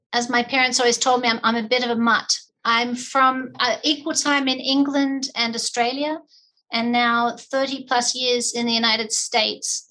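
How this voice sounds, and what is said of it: Slight foreign accent. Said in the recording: “our listeners can probably hear a slight accent”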